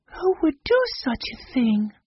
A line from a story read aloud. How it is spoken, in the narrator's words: asked in a shocked voice